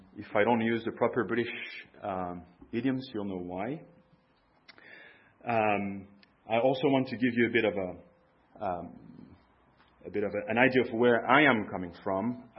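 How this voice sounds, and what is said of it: Mixed continental and American accent. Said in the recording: “my accent, a weird mix of continental and American accent ... my American dialect”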